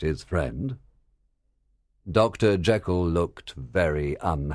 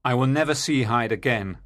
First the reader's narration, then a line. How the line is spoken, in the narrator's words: the doctor cried